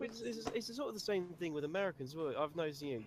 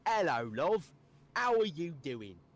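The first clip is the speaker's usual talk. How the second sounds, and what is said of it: Stereotyped put-on British accent. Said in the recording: “they try and do a British accent, and they always go the”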